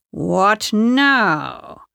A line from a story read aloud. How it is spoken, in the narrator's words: She snarled